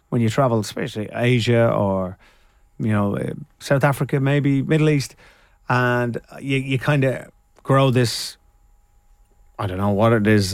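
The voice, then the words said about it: Irish Dublin accent. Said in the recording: “you sound Irish now ... your Dublin accent”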